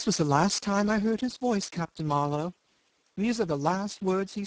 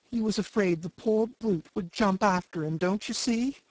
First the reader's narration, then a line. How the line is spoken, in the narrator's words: he pursued with a quaver